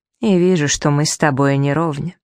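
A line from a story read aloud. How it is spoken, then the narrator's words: Tired. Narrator (Russian): добавил устало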